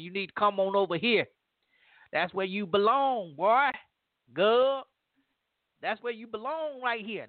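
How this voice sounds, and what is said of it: Put-on Southern accent, poorly done. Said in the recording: “My southern accent is ... horrible.”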